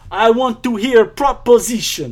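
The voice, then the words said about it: Exaggerated fake Russian accent. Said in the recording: “one of the most over-the-top Russian accents ... I'm going to be the Russianiest Russian that's ever Russianed in film ... you're really selling this accent”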